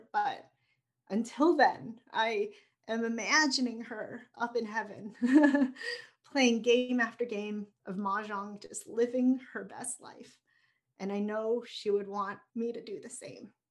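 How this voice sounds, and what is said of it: Emotional, choked-up voice. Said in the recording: “I got emotional. It's a little raw still ... I think you're all emotional.”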